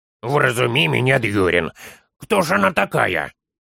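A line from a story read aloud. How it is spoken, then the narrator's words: Grumbling little one. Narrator (Russian): проворчал малыш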